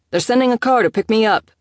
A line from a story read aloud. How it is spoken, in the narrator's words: shouted back through the door